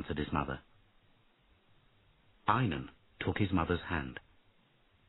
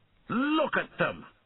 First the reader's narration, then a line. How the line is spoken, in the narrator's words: shouted Einan, angrily